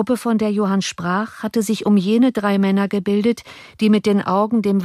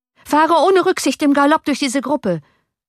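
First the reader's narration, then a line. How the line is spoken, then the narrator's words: Shouting to coachman. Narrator (German): schrie Johann dem Kutscher zu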